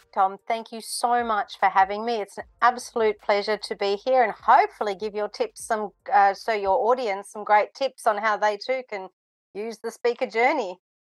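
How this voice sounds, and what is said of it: Australian accent. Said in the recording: “I can detect an Australian accent ... most certainly that is an Australian accent”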